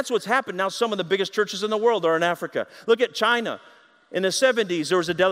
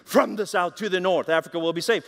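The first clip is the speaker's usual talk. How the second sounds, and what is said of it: German-accented impression of Reinhard Bonnke. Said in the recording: “He says in his German accent”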